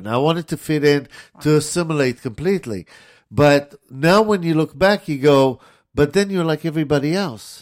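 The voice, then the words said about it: Israeli accent. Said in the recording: “I came here at 16 from Israel ... To this day, I still have an accent”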